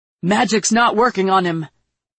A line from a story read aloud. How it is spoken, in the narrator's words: Geralt shouted, flecks of blood flying from his mouth